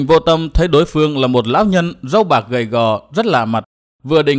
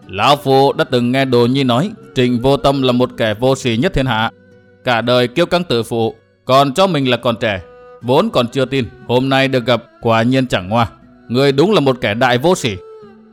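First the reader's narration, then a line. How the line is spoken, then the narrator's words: Old man laughing loudly. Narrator (Vietnamese): Lão nhân râu bạc ngửa mặt cười to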